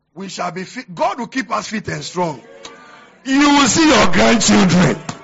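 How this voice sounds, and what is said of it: Shouting preacher. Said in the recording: “Today I'm preaching. That's why I'm shouting.”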